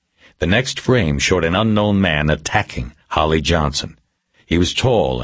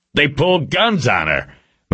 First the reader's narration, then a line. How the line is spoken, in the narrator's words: McGrath shouted